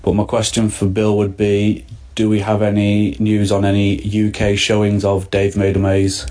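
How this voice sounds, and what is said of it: Manchester accent. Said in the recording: “That sounded like a Manchester accent.”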